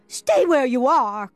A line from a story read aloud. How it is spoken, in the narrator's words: cried Diggory